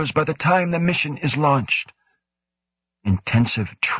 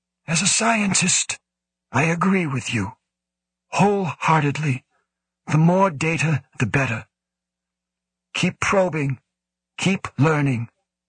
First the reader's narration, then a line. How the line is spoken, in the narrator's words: said in a more reasonable tone